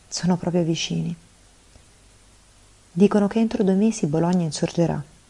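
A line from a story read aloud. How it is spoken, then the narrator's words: Sighing, then speaking. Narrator (Italian): Sospirò, poi disse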